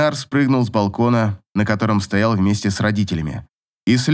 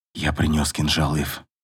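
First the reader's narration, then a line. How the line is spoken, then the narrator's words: Barely audible. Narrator (Russian): сказал он едва слышно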